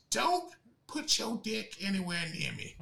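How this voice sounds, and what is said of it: Imitates a voice assistant, weak attempt. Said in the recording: “doing my best Alexa voice. ... The Alexa one's something you got to work on”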